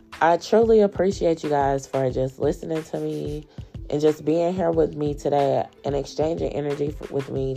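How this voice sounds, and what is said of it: Groggy morning voice. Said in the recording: “my voice is a little groggy this morning”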